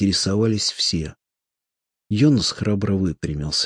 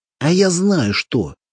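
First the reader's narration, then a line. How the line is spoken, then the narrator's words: Belligerent exclamation. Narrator (Russian): воинственно воскликнул коротышка Йонас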